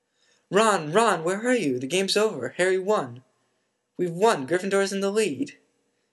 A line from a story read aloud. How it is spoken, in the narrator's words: shrieked Hermione